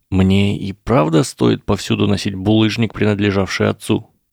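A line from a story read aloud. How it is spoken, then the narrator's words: Sigh. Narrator (Russian): Профессор МакГонагал вздохнула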